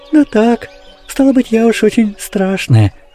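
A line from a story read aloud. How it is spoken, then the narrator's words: Sad. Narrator (Russian): печально сказала Афанасия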